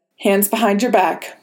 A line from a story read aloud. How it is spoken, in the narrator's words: Ross said